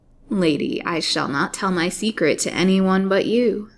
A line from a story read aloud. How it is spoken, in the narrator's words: said Haidee, with a low and fiend-like laugh